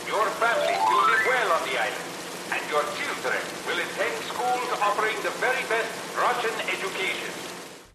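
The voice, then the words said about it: Bela Lugosi-style accent. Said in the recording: “totally Bela Lugosi's accent ... stole his accent”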